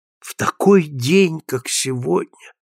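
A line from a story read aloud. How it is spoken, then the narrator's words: Sighing. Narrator (Russian): вздохнул Константино Пульяни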